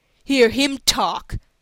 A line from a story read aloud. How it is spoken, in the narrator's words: said Roswell Crawford, with an unpleasant sneer